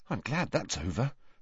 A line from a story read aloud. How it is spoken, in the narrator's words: muttered Neville